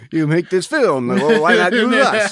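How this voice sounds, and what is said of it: Goofy put-on Soviet/Bulgarian accent. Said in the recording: “I don't know what accent that was. ... I think I was more Bulgarian than... Soviet. ... these goofy accents”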